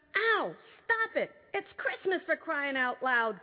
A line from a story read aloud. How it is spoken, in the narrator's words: cried Gregor